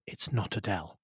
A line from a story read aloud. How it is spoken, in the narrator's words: whispered Isabella, strongly through clenched teeth